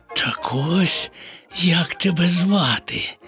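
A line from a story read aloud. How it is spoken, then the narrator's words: Whisper. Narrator (Ukrainian): прошепотів Боня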